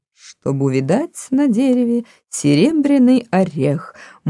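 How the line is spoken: Purring croon. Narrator (Russian): мурлыкал Мартин

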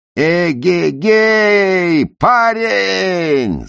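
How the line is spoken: Yelling. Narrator (Russian): заорал Ефем Неду

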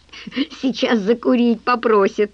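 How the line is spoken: Commanding after laughing. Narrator (Russian): Отсмеявшись, Томочка скомандовала

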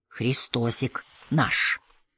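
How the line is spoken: Whispered. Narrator (Russian): Саня шепнул ему

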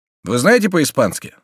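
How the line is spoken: Plain. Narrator (Russian): спросил Дармонталь

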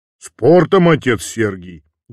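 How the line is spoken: Booming bass. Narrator (Russian): гудящим басом отвечал студент

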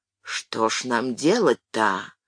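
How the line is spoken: Quiet daughter. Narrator (Russian): Дочка тихо

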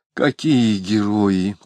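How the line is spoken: Mutter with heavy sigh. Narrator (Russian): пробормотала Алина, шумно вздохнув

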